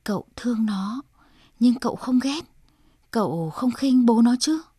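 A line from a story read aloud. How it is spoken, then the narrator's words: Low trembling whisper, father. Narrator (Vietnamese): bố Grossi thấp giọng, ông run run nói thầm vào tai De Rossi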